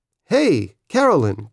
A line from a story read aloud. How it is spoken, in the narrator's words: Grandma said in her cheery voice